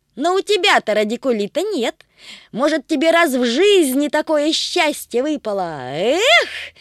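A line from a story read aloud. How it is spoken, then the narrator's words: Shouted. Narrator (Russian): крикнул Тришка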